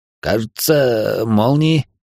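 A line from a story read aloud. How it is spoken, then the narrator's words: Uncertain answer. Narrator (Russian): неуверенно ответил тот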